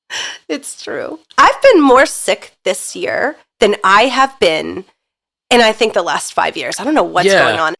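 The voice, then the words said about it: Congested head-cold voice. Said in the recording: “the way you said head cold ... you like left the L out completely ... Philadelphia / cold accent that you have right now”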